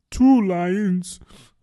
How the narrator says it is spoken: cried the Mock Turtle

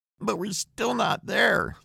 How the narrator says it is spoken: the boy whines

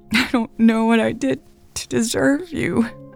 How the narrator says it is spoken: Elle sobbed

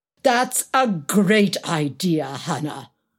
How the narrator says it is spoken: exclaimed Alex, mocking himself

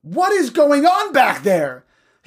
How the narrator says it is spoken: The bus driver yelled

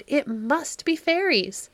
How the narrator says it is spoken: cried

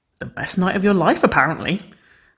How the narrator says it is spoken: Waverley giggled

